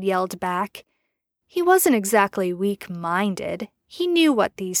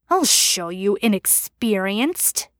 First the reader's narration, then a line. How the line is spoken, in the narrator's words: he growled